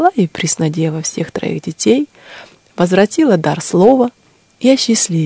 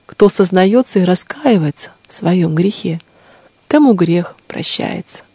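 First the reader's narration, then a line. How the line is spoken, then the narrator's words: Gentle. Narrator (Russian): сказала ей владычица ласково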